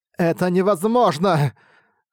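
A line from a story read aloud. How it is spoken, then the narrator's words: Trembling voice. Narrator (Russian): сказала дрожащим голосом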